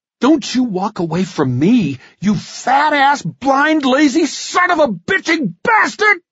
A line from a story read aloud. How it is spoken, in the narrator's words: I screamed